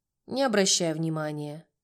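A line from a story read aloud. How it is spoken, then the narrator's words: Matter-of-fact tone. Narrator (Russian): будничным тоном сказал Юра, который работал здесь уже более 3 лет и повидал всякое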